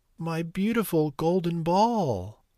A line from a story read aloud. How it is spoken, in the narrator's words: sobbed the princess